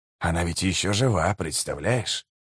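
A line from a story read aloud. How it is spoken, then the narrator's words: Whisper. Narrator (Russian): прошептал жемчуг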